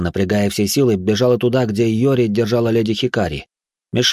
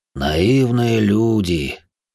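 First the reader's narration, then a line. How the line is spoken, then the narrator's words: Sigh. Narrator (Russian): вздохнул Йома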